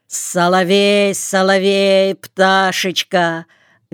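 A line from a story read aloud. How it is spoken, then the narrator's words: Suddenly bellowed, by a lame man. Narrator (Russian): Гаркнул вдруг хромой и сам удивился своему крику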